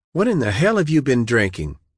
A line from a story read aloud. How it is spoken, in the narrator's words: She asked sharply